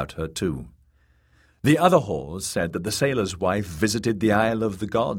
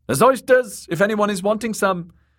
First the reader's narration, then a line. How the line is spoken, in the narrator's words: Kat said loudly